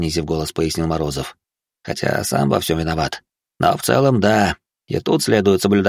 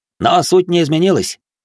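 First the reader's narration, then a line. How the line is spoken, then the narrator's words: Barked shout. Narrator (Russian): гаркнул из-за руля Славян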